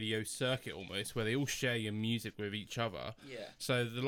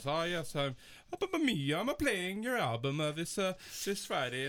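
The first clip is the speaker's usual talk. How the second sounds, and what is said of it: Put-on Italian accent. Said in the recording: “We apologize to our Italian listeners for that impression.”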